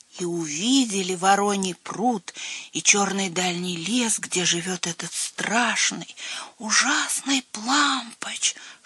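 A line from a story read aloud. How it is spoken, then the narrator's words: Whispered. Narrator (Russian): шепотом продолжал Лойбнер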